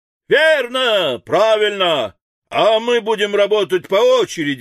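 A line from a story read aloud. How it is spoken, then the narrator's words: Crowd shouting. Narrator (Russian): закричали литейщики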